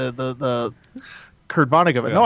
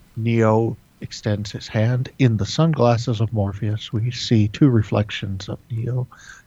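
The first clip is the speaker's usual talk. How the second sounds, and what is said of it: Calm public-radio announcer voice. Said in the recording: “I'm doing my NPR voice ... you're just being John Malkovich ... I was trying to do my NPR”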